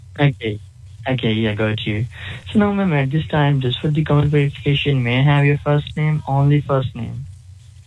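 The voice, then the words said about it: Slight accent. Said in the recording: “you got a little accent”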